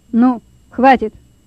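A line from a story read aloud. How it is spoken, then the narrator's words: Stern boss. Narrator (Russian): строго сказал начальник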